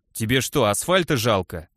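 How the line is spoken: Irritated question. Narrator (Russian): раздраженно спросил Косой

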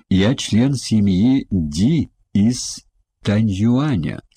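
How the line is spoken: Plain. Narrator (Russian): сказал он

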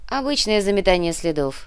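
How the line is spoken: Wry grunt. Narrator (Russian): хмыкнул Михраб

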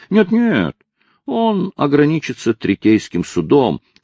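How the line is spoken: Feigned uncertain tone. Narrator (Russian): сказал Хайрам и добавил неуверенным тоном, хотя судья отлично видел, что это лишь притворство

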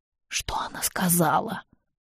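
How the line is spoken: Creaky very old man. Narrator (Russian): Проскрипел Петинант Сурен, тугоухий и замшелый 90-летний старик

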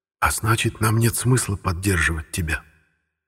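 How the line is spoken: Hoarse, barely audible. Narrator (Russian): добавил своим хриплым, еле слышным голосом Симеон Карт

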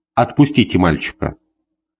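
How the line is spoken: Quiet. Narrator (Russian): сказал тихо

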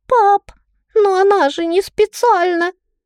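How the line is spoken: Sobbing. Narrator (Russian): Тея всхлипнула

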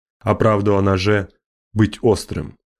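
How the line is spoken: Wry grunt. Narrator (Russian): Джубал хмыкнул

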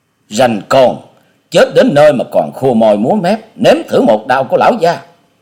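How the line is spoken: Hot-tempered man's bark. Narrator (Vietnamese): Gã đại hán được gọi là Lão Tam kia có vẻ nóng nhất ở trong bọn, quát

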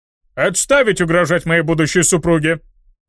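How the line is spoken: Barking shout. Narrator (Russian): рявкнул Шардон

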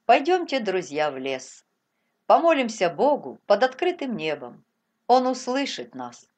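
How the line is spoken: Soft. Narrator (Russian): Он мягко сказал

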